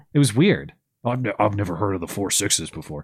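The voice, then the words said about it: Kevin Costner as John Dutton impression. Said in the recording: “I can't do a good John... Everybody Dutton, has a good Kevin Costner impression.”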